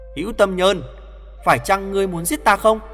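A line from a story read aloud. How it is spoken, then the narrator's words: Raised voice. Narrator (Vietnamese): Hoàng Thượng Chí cao giọng nói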